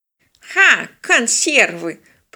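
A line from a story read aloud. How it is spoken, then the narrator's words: Contemptuous snort, old man. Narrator (Russian): презрительно фыркнул дед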